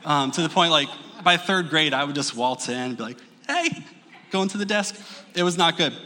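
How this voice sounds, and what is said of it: Usual voice. Nothing is said of it.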